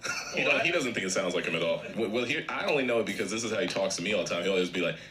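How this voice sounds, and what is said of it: Usual voice. Nothing is said of it.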